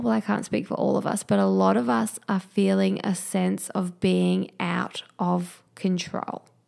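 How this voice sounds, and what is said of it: Hoarse, failing robotic-sounding voice. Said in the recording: “I feel like I'm losing my voice. I'm sounding a bit like a robot”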